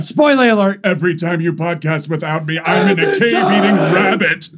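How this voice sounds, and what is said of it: Imitates another person's voice. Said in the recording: “you like that impression? That's my Lupita. That's good, dude.”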